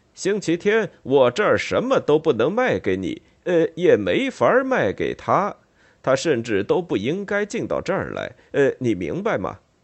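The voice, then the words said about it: Raised stern near-shouting voice. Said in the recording (Chinese): “用提高了的、严厉的、几乎是在大叫的声音说，好像是想让停车场那边都能听见似的”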